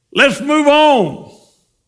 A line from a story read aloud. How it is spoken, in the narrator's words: hollered at his wife